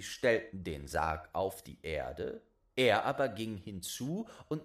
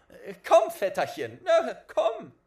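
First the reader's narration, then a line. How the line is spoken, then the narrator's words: Calling out. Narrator (German): rief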